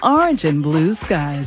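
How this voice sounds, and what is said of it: Mock TV weather forecaster voice. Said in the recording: “You like the way I said that in my meteorologist voice?”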